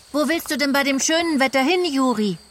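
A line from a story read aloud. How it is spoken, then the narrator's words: Calling out. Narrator (German): ruft Peter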